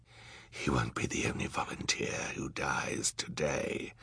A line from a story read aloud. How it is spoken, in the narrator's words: he said in a terrible whisper